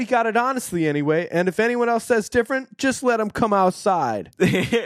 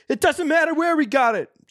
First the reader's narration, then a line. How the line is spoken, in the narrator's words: shouted Biff Hooper